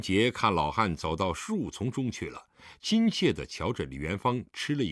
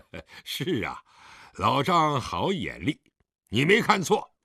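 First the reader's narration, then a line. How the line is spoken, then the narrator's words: Smiling. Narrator (Chinese): 狄仁杰微笑地点头道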